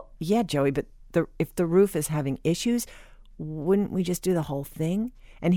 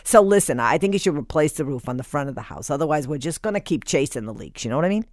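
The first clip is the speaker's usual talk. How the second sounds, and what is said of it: Put-on New York accent. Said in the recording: “He's got this kind of New York accent that you have to use when you quote him.”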